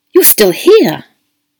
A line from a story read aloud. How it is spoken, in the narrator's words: he exclaimed as she opened the door